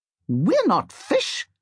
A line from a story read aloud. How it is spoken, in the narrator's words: says the first voice indignantly